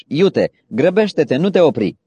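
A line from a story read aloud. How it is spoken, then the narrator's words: Shouted again. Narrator (Romanian): I-a strigat iarăși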